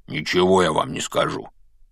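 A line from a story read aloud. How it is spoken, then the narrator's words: Grumbling. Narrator (Russian): пробурчал Хагрид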